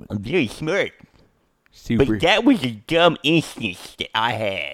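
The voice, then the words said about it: Imitates another person's voice. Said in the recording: “my impression of you”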